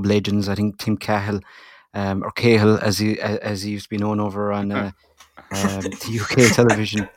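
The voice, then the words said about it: Strong Irish Tipperary accent. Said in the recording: “my Tipperary accent coming out strongly there”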